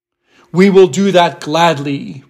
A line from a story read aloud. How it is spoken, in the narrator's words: returned the tiger